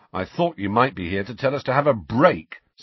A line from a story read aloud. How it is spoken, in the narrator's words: said Ron bitterly